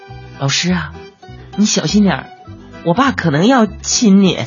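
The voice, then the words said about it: Very quiet, hushed voice. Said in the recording (Chinese): “我儿子就非常小声的说”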